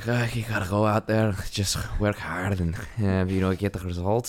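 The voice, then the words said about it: Imitates a thick Liverpool accent. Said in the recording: “he's got, like, this thick Liverpool accent”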